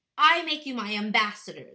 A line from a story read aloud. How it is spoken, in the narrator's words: the king called out hastily